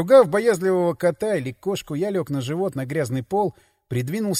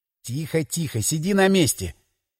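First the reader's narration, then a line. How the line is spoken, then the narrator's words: Whispering. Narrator (Russian): шептал я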